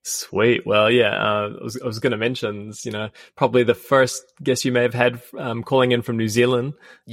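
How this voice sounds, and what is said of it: Distinct non-American accent. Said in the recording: “your accent is way cooler than mine”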